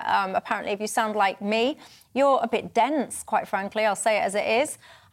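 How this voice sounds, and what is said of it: Hull English accent. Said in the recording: “Accents, for example, the Hull accent, my one”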